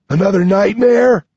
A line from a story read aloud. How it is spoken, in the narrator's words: Nine yawns from the corner